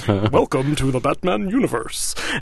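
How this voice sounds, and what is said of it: Failed Glenn Weldon voice impression. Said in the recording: “that's nothing like. ... No, it's terrible. Where did my Weldon voice go? ... Terrible.”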